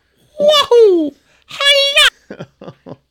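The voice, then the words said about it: Mario impression voice. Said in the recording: “my Mario impression”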